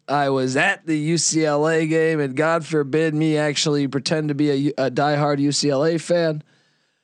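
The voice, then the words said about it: Hoarse, worn-out voice. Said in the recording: “My voice is out.”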